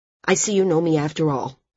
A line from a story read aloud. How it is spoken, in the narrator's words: he said, a bit sharply